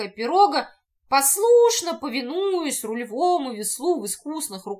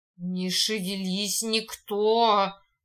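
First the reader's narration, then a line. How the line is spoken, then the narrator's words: Barely audible clear hiss. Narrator (Russian): прошипел чуть слышно, но внятно Луж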